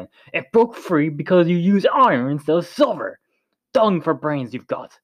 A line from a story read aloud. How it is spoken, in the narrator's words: barked